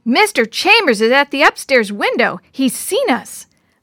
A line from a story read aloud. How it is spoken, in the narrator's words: Jenny yelled